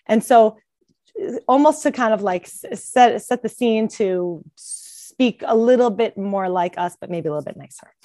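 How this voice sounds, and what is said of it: Bronx New York accent. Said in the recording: “my obnoxious Bronx, New York accent”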